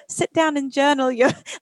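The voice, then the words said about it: Imitates another person's accent. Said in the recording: “I can literally say the whole thing in your accent”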